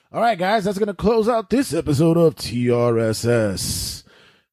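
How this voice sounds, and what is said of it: Game show host voice. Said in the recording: “game show voice”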